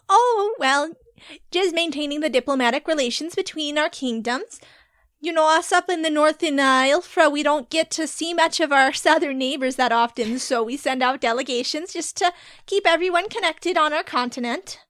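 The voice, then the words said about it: Put-on character accent. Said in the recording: “You have a lovely accent. ... I take great pride in my accent.”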